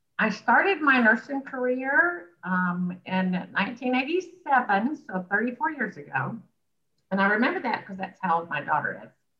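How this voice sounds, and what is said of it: Southern US Alabama accent. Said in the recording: “as you can tell by my accent, I'm from Alabama originally, Birmingham”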